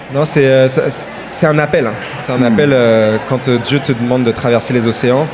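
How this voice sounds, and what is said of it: Quebec French accent. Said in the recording (French): “J'aime trop l'accent.”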